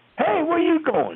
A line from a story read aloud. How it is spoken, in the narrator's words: they'd yell